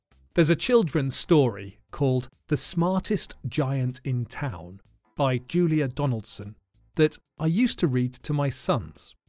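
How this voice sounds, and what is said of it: Southern English accent. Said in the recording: “my accent is now very much a southern accent, and now I say laugh and grass”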